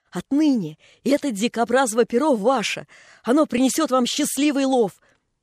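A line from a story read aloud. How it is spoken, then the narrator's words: Excited, teeth chattering from cold. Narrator (Russian): Женька, постукивая от утреннего холодка зубами, сказал взволнованно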